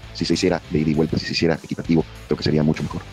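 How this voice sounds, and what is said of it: Deep announcer-style voice. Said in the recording (Spanish): “tenía como voz de locutor”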